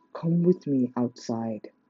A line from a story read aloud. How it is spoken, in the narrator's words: Sasha said in a low voice